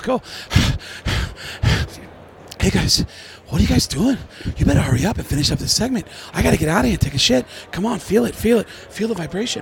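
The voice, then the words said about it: Breathless, deliberately bad celebrity impression. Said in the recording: “I love doing bad impressions ... I can't do a Mark Wahlberg impression, so I do this thing called out of breath Mark Wahlberg ... I just call it out of breath Mark Wahlberg”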